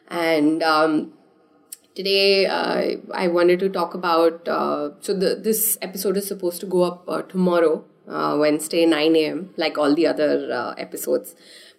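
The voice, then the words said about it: Strained, slightly hoarse voice. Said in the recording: “sorry about the voice. I'm still recovering from a throat infection, so it's a little weird.”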